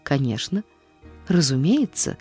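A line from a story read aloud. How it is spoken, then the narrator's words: Muttered. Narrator (Russian): пробормотала мисс Полли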